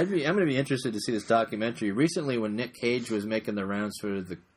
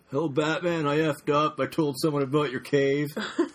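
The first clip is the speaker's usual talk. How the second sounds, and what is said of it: Poor imitation of another person's voice. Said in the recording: “real bad Nicolas Cage impression.”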